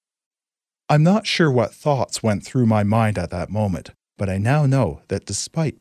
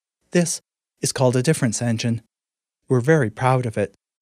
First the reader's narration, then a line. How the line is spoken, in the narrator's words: Angel announced in her affected tour guide voice